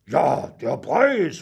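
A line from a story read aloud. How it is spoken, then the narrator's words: Hissed. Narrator (German): fauchte nun auch Emil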